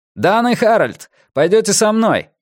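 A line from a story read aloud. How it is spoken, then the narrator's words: Steady confident shout. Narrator (Russian): прокричал Голдсрут, и Морган больше не слышал изумления, ужаса или боязни ответственности в его голосе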